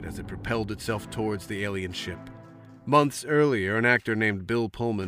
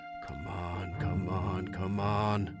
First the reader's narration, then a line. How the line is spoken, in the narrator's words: Whitmore whispered